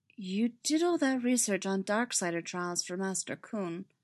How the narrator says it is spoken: Barriss said, her voice hesitant

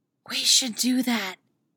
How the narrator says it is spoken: Natasha states whispers

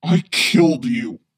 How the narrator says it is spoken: he growls

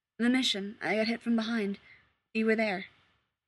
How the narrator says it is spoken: his voice shakes a little when he says

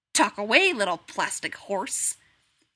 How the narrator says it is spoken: Kim muttered angrily

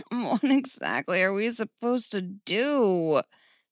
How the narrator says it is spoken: Steph groaned

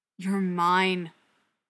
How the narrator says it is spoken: growls

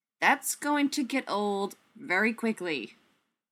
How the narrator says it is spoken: he said

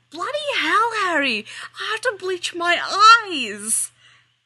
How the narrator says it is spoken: Weasley yells

